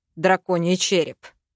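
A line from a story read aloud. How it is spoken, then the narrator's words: Growling. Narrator (Russian): зарычал я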